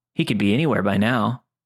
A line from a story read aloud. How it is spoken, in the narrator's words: he said with a chuckle